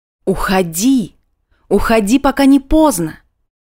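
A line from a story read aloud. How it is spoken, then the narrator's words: Hysterical inner shouting. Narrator (Russian): Осторожность не просто кричала, она уже билась в истерике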